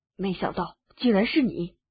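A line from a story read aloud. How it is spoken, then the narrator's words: Shocked, low voice. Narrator (Chinese): 脸色突然一片苍白，低声道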